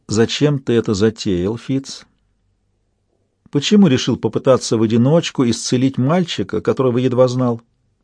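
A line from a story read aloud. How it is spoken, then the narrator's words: Soft, insinuating. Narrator (Russian): Янтарь вкрадчиво спросила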